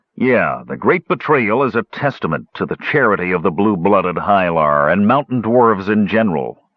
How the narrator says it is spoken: Flint sneered

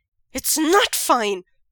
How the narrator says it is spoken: Wei Ying exclaims

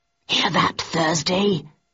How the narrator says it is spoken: He hissed

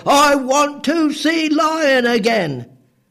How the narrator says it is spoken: stood firm and just bellowed

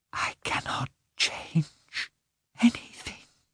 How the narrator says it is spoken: she whispered

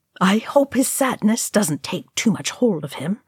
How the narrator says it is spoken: Ori murmured

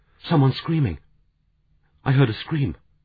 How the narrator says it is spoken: Amy, her voice sharp with fear, said

